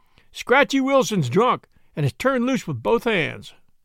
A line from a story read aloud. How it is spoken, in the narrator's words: He cried